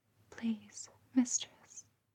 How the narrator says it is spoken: She whispered again and begged softly

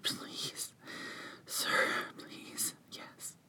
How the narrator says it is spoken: Without even thinking, I whispered

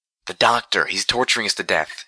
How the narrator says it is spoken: she told me urgently

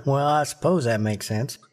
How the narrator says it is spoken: Calamity chuckled

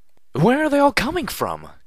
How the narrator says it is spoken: cried out Velvet Remedy

